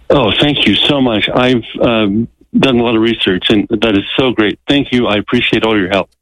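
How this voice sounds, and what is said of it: Relieved-sounding voice. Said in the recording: “I can hear the relief in your voice”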